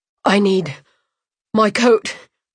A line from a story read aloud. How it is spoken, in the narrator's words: he wheezed